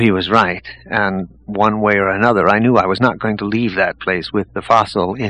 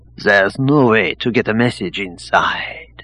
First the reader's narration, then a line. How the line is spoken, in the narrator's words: told me gravely